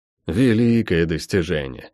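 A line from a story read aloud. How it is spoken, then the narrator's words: Scornful snort. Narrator (Russian): фыркнула Тия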